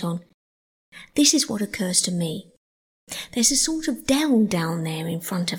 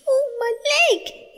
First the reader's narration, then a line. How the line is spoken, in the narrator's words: he cried